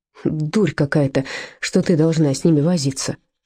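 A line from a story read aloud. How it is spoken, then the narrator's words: Grumbling. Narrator (Russian): пробурчал Вольфганг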